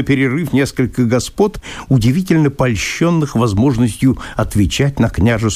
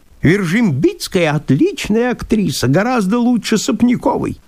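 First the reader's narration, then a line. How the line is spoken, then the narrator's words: Squeaky voice from corner. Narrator (Russian): пропищал из угла плюгавенький человек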